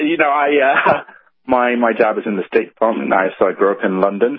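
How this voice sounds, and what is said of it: British accent. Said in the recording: “that British accent”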